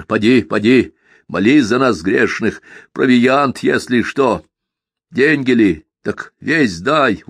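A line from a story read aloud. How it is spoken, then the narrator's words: Shouted after someone. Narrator (Russian): уже крикнул вдогон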